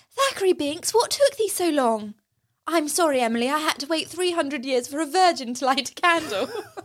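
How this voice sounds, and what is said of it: Posh English accent. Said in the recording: “the posh accent”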